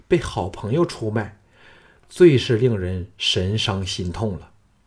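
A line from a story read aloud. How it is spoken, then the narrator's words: Sighing. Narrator (Chinese): 叹了一口气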